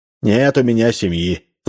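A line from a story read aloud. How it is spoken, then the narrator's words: Sighing. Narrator (Russian): вздохнул интеллигент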